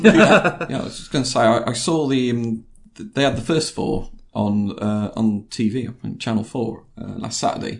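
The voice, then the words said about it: Northern English Lincolnshire accent. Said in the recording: “Is that my Lincolnshire accent getting in? ... It's that northern accent.”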